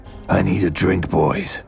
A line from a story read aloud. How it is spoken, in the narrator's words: the man said gruffly